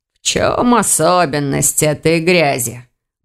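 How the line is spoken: Growling. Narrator (Russian): прорычал маг

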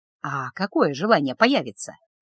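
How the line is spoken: Ingratiating question. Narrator (Russian): вкрадчиво спросил Люк

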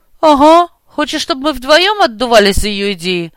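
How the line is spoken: Grumbled. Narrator (Russian): проворчала Лина

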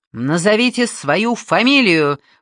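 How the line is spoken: Shout. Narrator (Russian): выкрикнула

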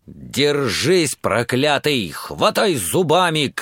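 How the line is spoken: Shout. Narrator (Russian): крикнул он

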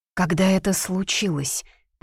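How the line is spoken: Barely audible question. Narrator (Russian): Поинтересовалась едва слышно

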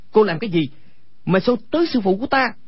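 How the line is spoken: Angry shout. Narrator (Vietnamese): Quách Tĩnh tức giận quát lên

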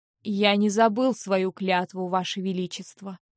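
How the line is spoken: Icy, interrupting. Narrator (Russian): оборвал короля Айронт ледяным тоном

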